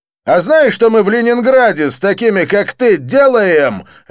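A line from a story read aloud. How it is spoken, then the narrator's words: Barked. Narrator (Russian): рявкнул блондин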